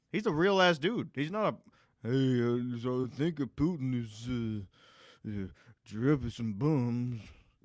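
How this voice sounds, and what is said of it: Brendan Schaub impression. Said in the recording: “Is that your Brendan Schaub impression?”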